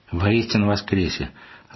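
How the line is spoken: Affectionate reply. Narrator (Russian): ласково ответила Марья Егоровна

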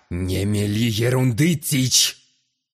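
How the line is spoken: Rough objection. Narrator (Russian): Грубо возразил главарь

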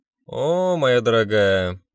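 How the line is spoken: Snide drawl. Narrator (Russian): протянула с ехидной улыбкой Люда

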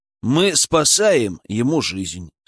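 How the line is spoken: Calm. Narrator (Russian): спокойно ответил я

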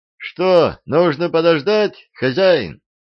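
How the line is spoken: Shout. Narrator (Russian): крикнул шофер

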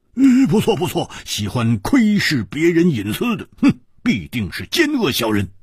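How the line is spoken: Loud. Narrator (Chinese): 蝴蝶花大声说

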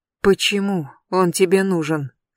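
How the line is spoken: Hoarse whisper. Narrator (Russian): хрипло шепчу я

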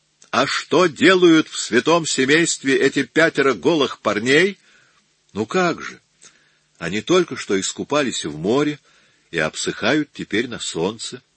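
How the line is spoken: Calm answer. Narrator (Russian): спокойно ответил Микеланджело

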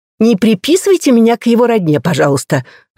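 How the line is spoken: Indignant. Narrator (Russian): возмущенно говорит Сидзука

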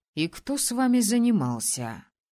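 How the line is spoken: Irritated, cold question. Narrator (Russian): Вся любезность испарилась, и правитель раздраженно спросил

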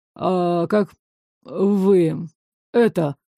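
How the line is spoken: Breathed out. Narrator (Russian): выдохнул Ларс

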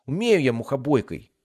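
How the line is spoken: Hurt squeak, young boy. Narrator (Russian): обиженно пискнул младший мальчик

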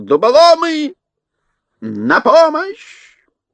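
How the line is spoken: Furious yelling. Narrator (Russian): Кабр Гвин бешено заорал

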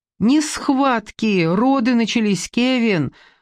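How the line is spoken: Tearful exclamation. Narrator (Russian): воскликнула она сквозь слезы

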